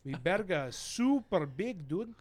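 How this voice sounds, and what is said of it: Put-on Mexican accent. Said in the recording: “literally used one Spanish word, but just kept the accent... It's a Mexican.”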